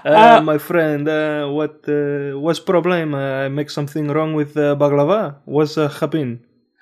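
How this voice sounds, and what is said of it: Put-on foreign accent. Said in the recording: “I'm going to have to speak an accent”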